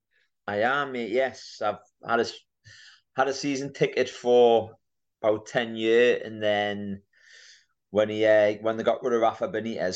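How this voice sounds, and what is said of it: Northeast English accent. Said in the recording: “that's a Northeast accent”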